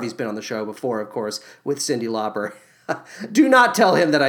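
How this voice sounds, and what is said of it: Usual voice. Nothing is said of it.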